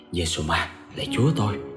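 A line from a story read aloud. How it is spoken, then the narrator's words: Frightened old woman muttering. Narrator (Vietnamese): Bà Tư hoảng hồn mồm lẩm bẩm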